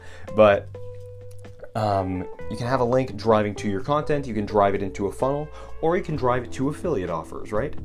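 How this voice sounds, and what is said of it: Tired, hoarse, worn-out voice. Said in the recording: “sorry, I'm really tired. My voice is shot.”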